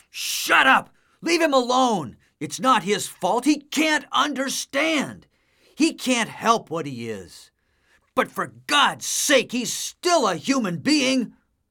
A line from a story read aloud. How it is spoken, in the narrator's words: I jumped up and shouted